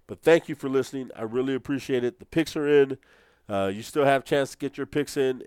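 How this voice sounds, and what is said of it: Worn-out, beat-up sounding voice. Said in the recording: “my voice sounds like I'm beat up, but it's because I am beat up.”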